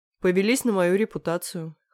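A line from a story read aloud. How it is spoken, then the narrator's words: Smirking grunt. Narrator (Russian): хмыкнул Леха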